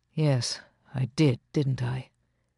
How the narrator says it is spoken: he murmured

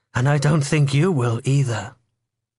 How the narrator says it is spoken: he said calmly

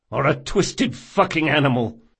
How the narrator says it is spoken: spat Locke

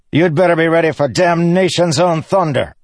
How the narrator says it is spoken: Sadius's officer shouted at Dalinar

